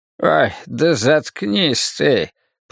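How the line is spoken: Muttering. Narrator (Russian): пробормотал Мартин Селен

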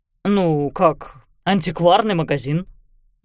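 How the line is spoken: Uncertain reply. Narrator (Russian): неуверенно ответил Хьюго

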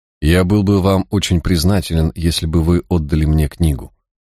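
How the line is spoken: Soft, insinuating, confident. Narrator (Russian): произнес он мягким и вкрадчивым, но в то же время уверенным голосом

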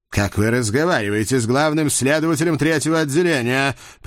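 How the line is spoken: Yelling. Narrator (Russian): придя в себя, завопил он

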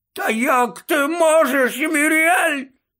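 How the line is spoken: Moaning. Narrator (Ukrainian): буквально стогнав Додж

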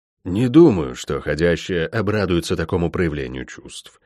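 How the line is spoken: Muttering. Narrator (Russian): пробормотал Гис

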